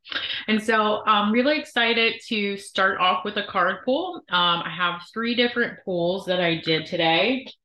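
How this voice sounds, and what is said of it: Sniffly, congested voice. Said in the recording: “I am sniffling ... So if we sound a little funky”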